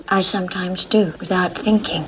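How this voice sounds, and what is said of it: Weird, strained-sounding accent. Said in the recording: “She got a weird accent right there ... it sounded like somebody else living in her head almost ... sounds like me whenever I bite my tongue and you gotta talk weird”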